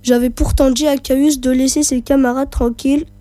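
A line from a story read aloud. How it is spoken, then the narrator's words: Grumbled irritably. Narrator (French): grommela Mucius avec humeur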